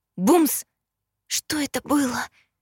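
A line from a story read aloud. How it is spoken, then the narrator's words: Whispered. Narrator (Russian): прошептала я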